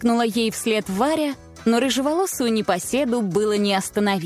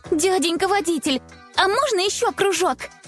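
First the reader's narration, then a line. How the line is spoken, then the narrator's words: Excited girl pleading. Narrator (Russian): Взволнованно попросила девочка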